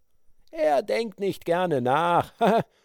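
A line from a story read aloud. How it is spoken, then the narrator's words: Laughing. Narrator (German): lachte Blackfoot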